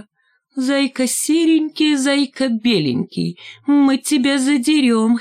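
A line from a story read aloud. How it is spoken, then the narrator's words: Giggling. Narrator (Russian): хихикнула Шмакова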